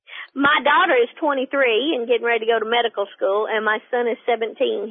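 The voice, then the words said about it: Southern US accent, between Carolina and Tennessee. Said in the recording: “I grew up in South Carolina ... I have lived in Tennessee now for 30-something years. So I went from Southern dialect to hillbilly. So somewhere in between is my voice.”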